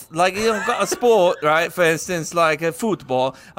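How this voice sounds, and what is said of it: Put-on Spanish accent. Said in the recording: “Why did I do that in a Spanish accent?”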